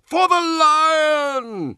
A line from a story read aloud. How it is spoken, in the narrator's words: he roared